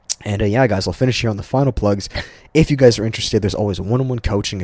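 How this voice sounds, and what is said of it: Slightly hoarse, strained voice. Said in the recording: “I'm actually losing my voice a little bit”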